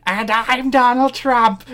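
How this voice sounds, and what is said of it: Loud, obnoxious satirical imitation of another person. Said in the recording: “His Donald Trump impression... He is a very good Donald Trump impression... It's like loud and obnoxious, and it's just satire instead of trying to do an impression of him”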